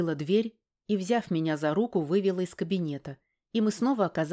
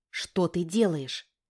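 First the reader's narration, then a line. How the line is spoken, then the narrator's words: Quiet question. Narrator (Russian): тихо спросила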